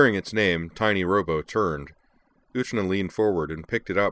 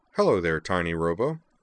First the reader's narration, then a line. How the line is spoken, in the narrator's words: said Uterna cheerfully